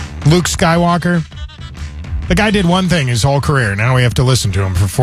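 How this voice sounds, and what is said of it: Usual voice. Nothing is said of it.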